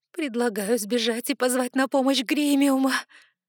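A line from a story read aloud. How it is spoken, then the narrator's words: Frightened whimper. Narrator (Russian): проскулила я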